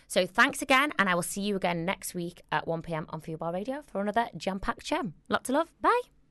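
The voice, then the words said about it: Scouse accent. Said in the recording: “my Scouse accent”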